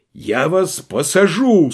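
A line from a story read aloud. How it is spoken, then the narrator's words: Desperate shout. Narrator (Russian): с отчаянием крикнул капрал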